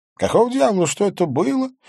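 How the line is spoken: Groaning. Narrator (Russian): простонал я

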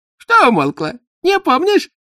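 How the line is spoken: Giggling examiner. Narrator (Russian): хихикнул экзаменатор

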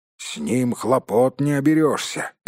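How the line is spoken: Grumbling dwarf. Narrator (Russian): проворчал кто-то из гномов

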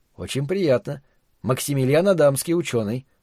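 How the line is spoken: Calm introduction. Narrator (Russian): спокойно представился Макс

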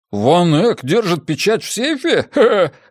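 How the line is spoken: Laughing chuckle. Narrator (Russian): хохотнул Джеспер

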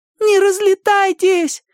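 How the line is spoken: Full-force shout. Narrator (Russian): изо всех сил закричала Гайка

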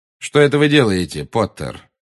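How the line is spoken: Cold question. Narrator (Russian): холодно, как всегда, спросил Снег

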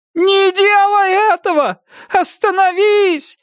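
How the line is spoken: Wailing howl. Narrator (Russian): взвыла миссис Самарассудительность

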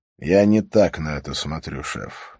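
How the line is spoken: Sighing. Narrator (Russian): вздохнул Харри

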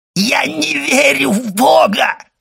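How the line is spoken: Shout. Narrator (Russian): закричал Кадрус

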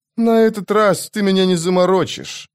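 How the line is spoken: Grumbling. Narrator (Russian): проворчал Мурильо

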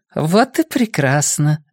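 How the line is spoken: Gentle, good-natured voice. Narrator (Russian): голос ее стал ласково-добродушным

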